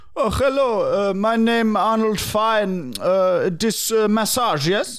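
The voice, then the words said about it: Hard-to-understand put-on accent. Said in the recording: “Arnold Fine's accent is hard to understand.”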